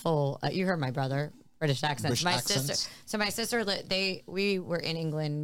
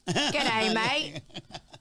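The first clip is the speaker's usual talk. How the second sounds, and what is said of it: Put-on Australian accent. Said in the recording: “Probably Australian.”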